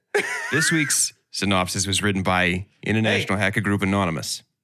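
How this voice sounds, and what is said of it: Put-on Boston accent. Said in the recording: “Boston accent the whole time, please.”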